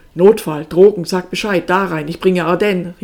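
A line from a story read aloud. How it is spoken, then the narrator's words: Called out. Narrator (German): rief Enes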